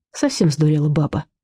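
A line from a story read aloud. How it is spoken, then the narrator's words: Weary. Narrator (Russian): устало проговорил Мышкин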